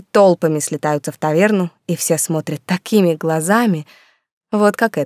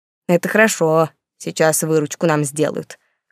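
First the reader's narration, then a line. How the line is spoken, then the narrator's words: Snorting chuckle. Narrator (Russian): хмыкнула барменша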